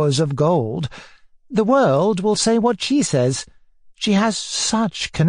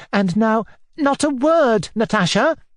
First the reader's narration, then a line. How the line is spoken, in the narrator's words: cried Alyosha hotly